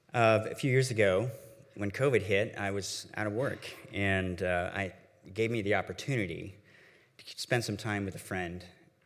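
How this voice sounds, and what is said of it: Deeper, congested voice from illness. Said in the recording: “my voice is a little deeper today, and I have some sort of upper respiratory thing”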